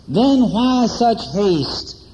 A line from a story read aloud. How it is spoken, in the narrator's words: groaned